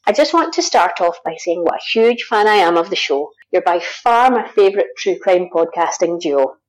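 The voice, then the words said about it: Scottish accent. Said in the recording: “is from Scotland. ... I love the Scottish brogue. ... It's an accent. ... I love the Scottish accent.”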